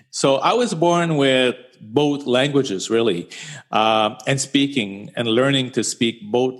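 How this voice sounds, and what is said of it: Strong French-Canadian accent. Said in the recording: “I have a very strong Francophone accent”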